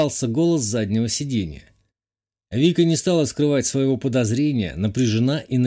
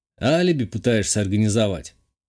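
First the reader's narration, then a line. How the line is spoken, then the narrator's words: Scoffing. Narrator (Russian): хмыкнул я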